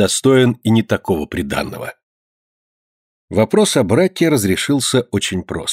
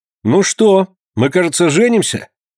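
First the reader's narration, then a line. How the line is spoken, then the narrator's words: Cheerful, noisy, hiding nerves. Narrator (Russian): весело спросил Лазар, желая скрыть волнение под видом шумливой веселости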